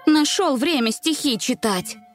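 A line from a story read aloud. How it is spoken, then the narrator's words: Displeased grumble. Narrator (Russian): Недовольно пробурчала она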